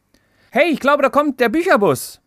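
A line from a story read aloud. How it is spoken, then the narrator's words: Call. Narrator (German): ruft Lara ihrer Zwillingsschwester Sophie zu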